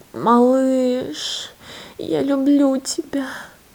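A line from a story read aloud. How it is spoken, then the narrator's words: Tender whisper. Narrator (Russian): ласково прошептала Лена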